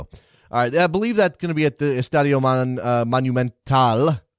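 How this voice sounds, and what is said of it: Poor attempt at Spanish accent. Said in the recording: “That's my terrible accent right there. I'm working on Spanish”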